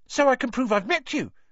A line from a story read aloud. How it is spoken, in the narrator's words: said Colin Creevy eagerly